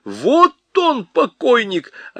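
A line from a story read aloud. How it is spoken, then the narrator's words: Shrill yelling. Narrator (Russian): чей-то визгливый голос вопил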